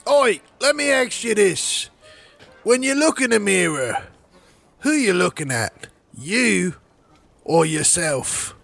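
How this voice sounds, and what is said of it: Put-on pirate accent. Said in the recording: “that accent... pretend to be a pirate”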